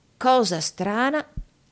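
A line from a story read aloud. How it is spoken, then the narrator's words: Plain. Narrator (Italian): disse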